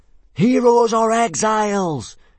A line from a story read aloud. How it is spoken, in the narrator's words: yelled 18 boys fanatically back at him